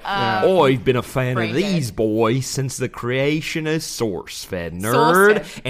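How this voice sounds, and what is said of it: Wobbly put-on Australian accent. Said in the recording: “You should do this in your Australian accent ... My accents just kind of blend into one noise ... it's Russian meets... ... It was a southern accent for a second.”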